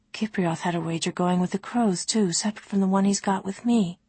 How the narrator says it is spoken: Ollie murmured

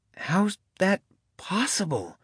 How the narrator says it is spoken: Cody breathed

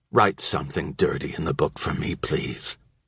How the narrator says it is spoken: whispered in a crackling voice

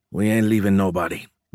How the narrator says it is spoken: Mendez grunted

